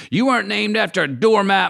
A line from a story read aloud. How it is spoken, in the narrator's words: Mom screamed